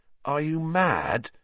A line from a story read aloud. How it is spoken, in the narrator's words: said Harry, his voice easily as croaky as Sirius